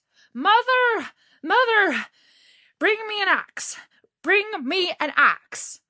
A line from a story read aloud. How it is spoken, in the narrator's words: he called out